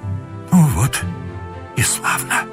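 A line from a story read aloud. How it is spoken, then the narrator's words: Whisper, holding back tears. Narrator (Russian): прошептал Муравьев, прикрывая ладонью глаза, чтобы вошедшая в комнату стремительная Катрин не увидала заблестевших у него слез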